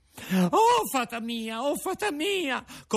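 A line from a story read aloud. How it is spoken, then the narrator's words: Puppet shrieking. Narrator (Italian): cominciò allora a strillare il burattino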